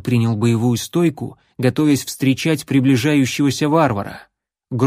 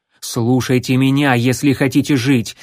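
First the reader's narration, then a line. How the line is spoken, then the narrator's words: Barking. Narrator (Russian): рявкнул следопыт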